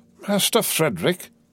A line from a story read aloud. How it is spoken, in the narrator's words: exclaimed the man